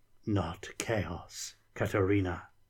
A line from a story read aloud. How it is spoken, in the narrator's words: the creature whispered